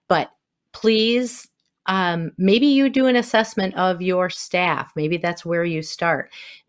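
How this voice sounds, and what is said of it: Wisconsin accent. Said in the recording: “my Wisconsin accent”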